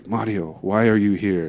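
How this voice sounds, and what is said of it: Creepy put-on accent. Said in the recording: “came back with a really creepy accent.”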